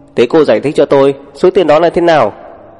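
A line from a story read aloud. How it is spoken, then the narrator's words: Screaming, howling. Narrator (Vietnamese): Sầm Vân lại gào rú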